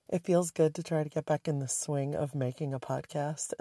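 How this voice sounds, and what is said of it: Hoarse, raspy voice. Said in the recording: “I'm still a little hoarse and raspy”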